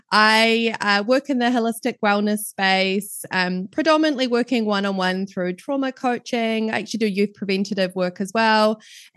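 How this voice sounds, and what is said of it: New Zealand accent. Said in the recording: “as you can probably tell from my accent, I'm right down in the bottom of the world in New Zealand”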